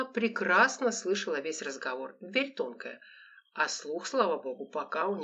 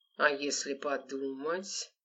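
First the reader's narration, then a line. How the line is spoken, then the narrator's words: Creaky grating voice. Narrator (Russian): проскрипел страшный тип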